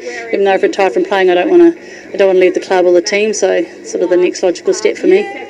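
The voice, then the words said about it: New Zealand accent. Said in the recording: “being a Kiwi. You've just about flipped out that accent.”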